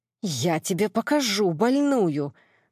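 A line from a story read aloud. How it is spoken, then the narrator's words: Angry hiss. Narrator (Russian): зашипела соперница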